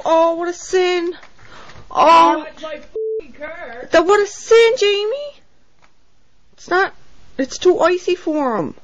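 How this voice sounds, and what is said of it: Cape Breton accent. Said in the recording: “I love that accent. Even being a Cape Bretoner ... She even sounds very ... Cape Breton.”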